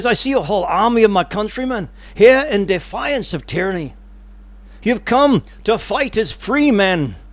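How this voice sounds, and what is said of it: Deliberately bad put-on accent. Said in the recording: “I'm going to do a really bad accent here, but I'm going to do my best.”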